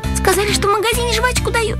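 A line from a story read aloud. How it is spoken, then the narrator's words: Frightened girl babbling. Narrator (Russian): Девочка испуганно пролепетала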